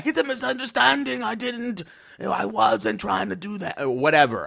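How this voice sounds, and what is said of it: Hugo Strange character voice. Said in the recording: “Was that your accent for him? ... Yeah, that was my Hugo Strange. ... It was good. It was good. ... I've been practicing.”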